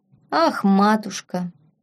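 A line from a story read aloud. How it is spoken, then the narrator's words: Drawn-out. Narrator (Russian): протянул Фабиан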